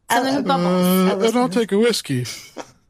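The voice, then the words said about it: Imitates another person's voice. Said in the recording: “is that a little Talia impression ... That was good, babe.”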